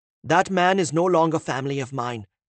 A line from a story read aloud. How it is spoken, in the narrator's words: she snapped back at him